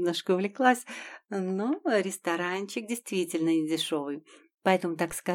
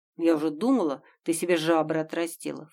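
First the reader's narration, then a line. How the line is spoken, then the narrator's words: Snorting. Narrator (Russian): фыркнула Гутя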